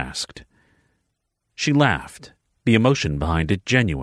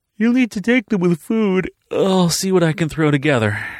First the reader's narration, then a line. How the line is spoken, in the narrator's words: she said, yawning